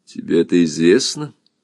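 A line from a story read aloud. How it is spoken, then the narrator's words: Calm. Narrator (Russian): спокойно сказал Гюннюльф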